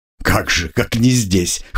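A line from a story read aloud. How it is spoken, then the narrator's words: Wry snort. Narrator (Russian): хмыкнул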